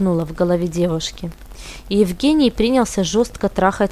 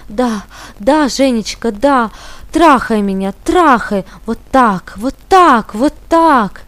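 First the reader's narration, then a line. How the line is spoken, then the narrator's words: Unrestrained moaning, near screaming. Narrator (Russian): Не стесняясь, стонала и почти кричала Алена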